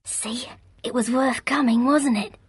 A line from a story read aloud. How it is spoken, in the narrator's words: Under the noise the manservant made unrolling the stiff linen and setting it up on its frame, she whispered